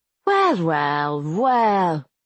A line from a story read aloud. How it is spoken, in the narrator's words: Frank drawled